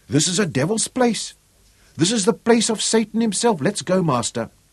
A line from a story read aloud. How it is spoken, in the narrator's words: pleaded